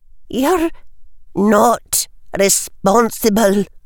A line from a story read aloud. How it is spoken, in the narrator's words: she said, though her voice trembled